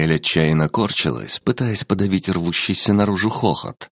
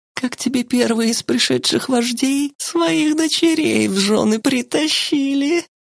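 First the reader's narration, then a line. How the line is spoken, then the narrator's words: Loud laughing woman. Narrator (Russian): И рассмеялась уже во весь голос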